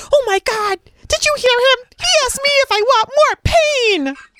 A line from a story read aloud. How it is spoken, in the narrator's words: the kid was yelling at his coach